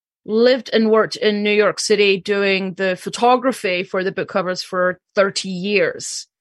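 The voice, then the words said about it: Slight Scottish accent. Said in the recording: “I am originally from Scotland, so if anybody hears a wee bit of a twang, that's the Scottish part of me coming out.”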